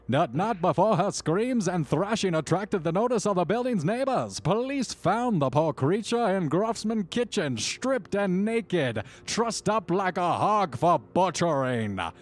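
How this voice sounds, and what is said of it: Old-timey news reporter voice. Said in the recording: “I'm going to switch into an old-timey news reporter accent”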